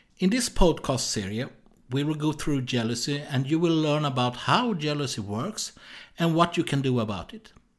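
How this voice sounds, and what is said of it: Swedish accent. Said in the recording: “I was born in Sweden, so that's why I have this strange accent.”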